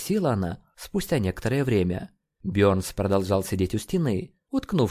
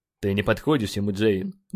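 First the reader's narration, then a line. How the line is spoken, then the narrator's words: Rough curt remark. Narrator (Russian): грубо бросил он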